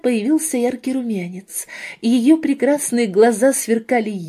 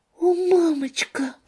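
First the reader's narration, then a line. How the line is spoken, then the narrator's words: Whisper. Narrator (Russian): прошептала Розалия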